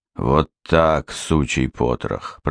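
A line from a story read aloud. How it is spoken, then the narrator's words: Through gritted teeth. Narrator (Russian): процедил Рыжий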